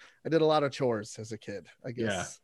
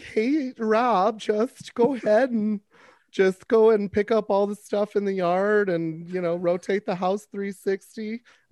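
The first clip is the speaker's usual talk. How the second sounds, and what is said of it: Imitates a mom's voice. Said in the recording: “mom voice”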